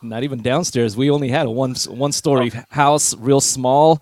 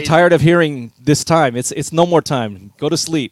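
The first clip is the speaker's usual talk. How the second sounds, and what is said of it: Put-on Filipino accent. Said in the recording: “in a Filipino accent.”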